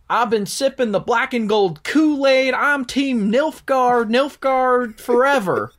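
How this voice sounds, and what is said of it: Southern US accent. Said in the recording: “The way Nilfgaard sounds in a southern accent is uncomfortable.”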